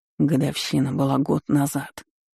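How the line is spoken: Quiet reply. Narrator (Russian): тихо ответил Максим доктору

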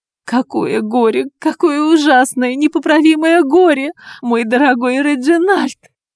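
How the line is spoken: Woman sobbing heavily. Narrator (Russian): Женщина рыдала в три ручья

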